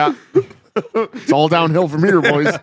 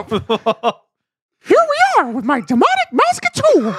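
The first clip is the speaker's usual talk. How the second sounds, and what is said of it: Mickey Mouse voice impression. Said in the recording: “your Mickey impersonation”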